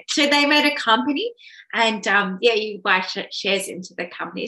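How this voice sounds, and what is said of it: Strained, failing voice. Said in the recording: “I'm losing my voice now.”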